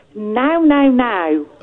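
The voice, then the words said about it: Somerset English accent. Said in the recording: “I love your accent. ... Where is that accent specifically? ... Somerset. ... It's one of the best accents.”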